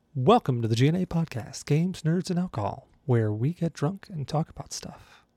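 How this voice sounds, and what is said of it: Put-on customer service voice. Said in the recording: “I don't know why I'm talking in this voice. I just threw in my customer service voice real quick”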